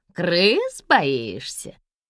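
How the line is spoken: Gloating nasal man. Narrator (Russian): злорадно прогнусавил мужчина

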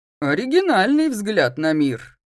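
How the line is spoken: Man's amused snort. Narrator (Russian): хмыкнул высокий, широкоплечий шатен в военной форме

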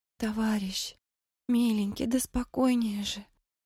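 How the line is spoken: Whisper. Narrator (Russian): шептала Мэри

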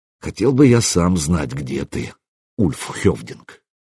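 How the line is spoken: Muttered. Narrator (Russian): пробормотал

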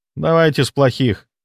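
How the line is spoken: Gloomy. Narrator (Russian): мрачно сказал он

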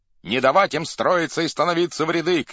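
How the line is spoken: Shouting. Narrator (Russian): кричал Кошевой

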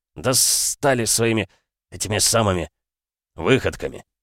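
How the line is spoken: Sad growl. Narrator (Russian): рыкнул, сделав грустное лицо

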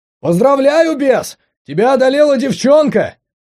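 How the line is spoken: Dazed yell. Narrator (Russian): Ошалело заорал Боря

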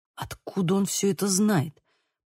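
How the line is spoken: Muttering. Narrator (Russian): пробормотал Лука

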